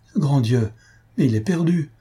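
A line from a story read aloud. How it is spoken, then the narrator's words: Despairing cry. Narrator (French): s'écria Albina avec désespoir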